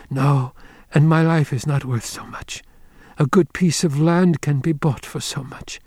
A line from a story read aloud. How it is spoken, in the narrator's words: Olan, she came suddenly out of her languor, and she said weakly